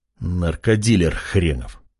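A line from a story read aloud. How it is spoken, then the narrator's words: Muttered. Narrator (Russian): пробормотал Артем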